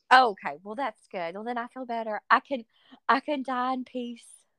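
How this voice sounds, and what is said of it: Mild Southern US twang. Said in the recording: “I love your accent. I mean, it's perfect. It's just charming. It's not too strong, but it's there.”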